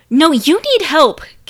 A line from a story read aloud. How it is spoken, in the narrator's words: Kelsey spat